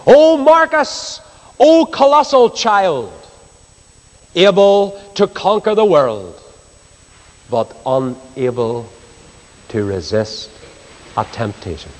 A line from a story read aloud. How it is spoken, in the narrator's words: tutor shouted in disgust